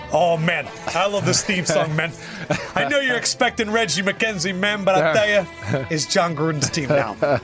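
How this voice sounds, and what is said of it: Put-on Italian accent impression. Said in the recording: “When did John Gruden get an Italian accent? ... I'm not good at imitations ... So then it all turns Italian.”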